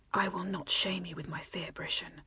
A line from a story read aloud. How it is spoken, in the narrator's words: she whispered against his neck